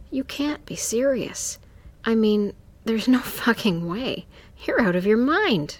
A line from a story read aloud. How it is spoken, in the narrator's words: choked